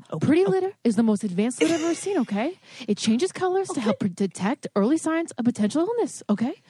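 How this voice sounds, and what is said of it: Imitates another person's voice. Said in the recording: “can do the Mark Wahlberg voice. You'd be like, listen.”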